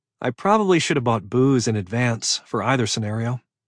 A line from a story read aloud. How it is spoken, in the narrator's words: she said, her voice wry with sarcasm